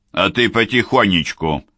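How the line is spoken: Cold advice. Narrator (Russian): холодно посоветовал Селито

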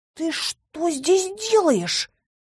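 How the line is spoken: Hissed. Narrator (Russian): зашипел Кайл

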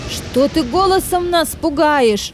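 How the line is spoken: Shout. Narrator (Russian): закричал Боб

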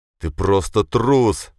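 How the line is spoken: Growled. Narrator (Russian): зарычал

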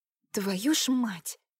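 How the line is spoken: Muttered through teeth. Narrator (Russian): пробормотала сквозь зубы

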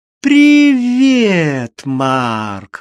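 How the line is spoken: Joyful exclaim. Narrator (Russian): радостно воскликнула

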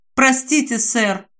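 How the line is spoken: Plain. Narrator (Russian): говорит друг Джейн

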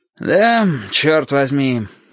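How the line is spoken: Sighing speech. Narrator (Russian): вздохнув, сказал Петька

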